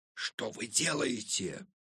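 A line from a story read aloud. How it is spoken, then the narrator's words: Quiet indignant boy. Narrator (Russian): Тихо возмутился мальчишка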